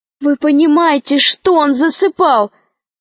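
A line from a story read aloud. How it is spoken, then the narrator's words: Shouted. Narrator (Russian): закричала Алиса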